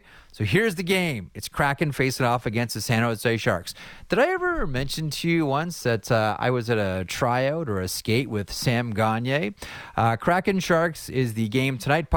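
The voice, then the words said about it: Imitates another person's voice. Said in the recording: “let me try to do my bet my best Matt Marchese impression”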